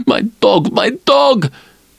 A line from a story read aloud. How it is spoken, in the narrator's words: wailing